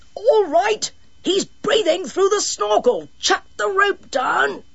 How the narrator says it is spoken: the swimmer shouted

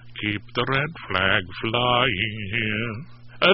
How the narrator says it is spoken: added under my breath

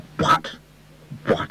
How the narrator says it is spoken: stammered

